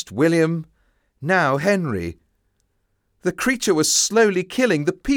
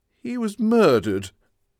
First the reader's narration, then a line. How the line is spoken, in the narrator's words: said sadly